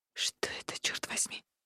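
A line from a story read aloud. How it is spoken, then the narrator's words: Whisper. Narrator (Russian): прошептала женщина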